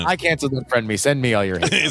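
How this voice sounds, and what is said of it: Comic character voice. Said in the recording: “Can you make him do an Unfriend Me voice? And you just did it.”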